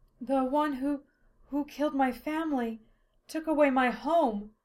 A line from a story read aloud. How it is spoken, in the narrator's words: Silphiel gasped